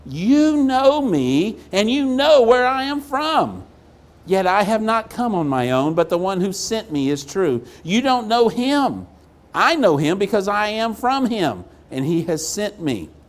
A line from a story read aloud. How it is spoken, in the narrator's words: Jesus cried out